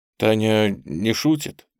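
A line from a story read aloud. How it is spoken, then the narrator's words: Muffled, hollow question. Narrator (Russian): как-то глухо спросил он у княжны Лидии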